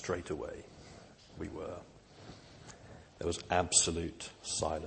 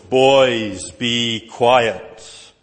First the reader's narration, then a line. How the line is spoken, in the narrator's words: from the other side of the quadrangle, we heard this booming voice